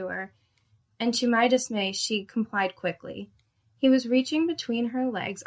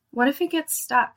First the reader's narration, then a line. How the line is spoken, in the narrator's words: she whined in a nasal, babyish voice